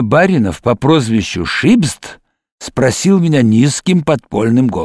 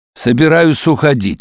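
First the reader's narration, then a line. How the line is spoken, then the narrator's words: Dry, curt. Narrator (Russian): сказал я сухо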